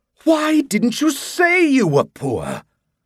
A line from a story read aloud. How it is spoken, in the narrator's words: Morleone exclaimed with a sigh